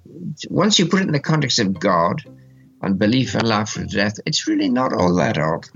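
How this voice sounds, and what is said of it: Old-fashioned 1940s-sounding accent. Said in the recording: “his accent... it sounds like a recording from the 40s”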